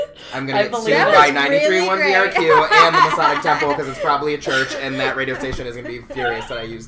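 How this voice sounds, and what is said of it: Usual voice. Nothing is said of it.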